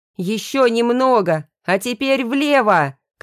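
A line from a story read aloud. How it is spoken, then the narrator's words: Shout. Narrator (Russian): крикнул Андрей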